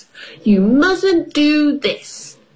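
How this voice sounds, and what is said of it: Bossy child's voice. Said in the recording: “in a bossy voice”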